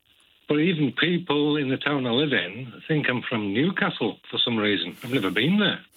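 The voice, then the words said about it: Slight Geordie-like Orcadian-Cumbrian accent. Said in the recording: “I did think it was a Geordie accent or slight twang of a Geordie accent. It's a lovely accent... It's kind of a mixture between Orcadian and Cumbrian”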